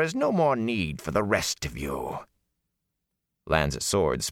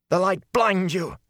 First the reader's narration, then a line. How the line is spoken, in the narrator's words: she cried